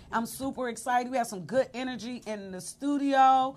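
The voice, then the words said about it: Louder, excited voice. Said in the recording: “my voice just got louder”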